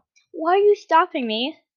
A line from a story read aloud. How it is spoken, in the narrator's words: Senso sighed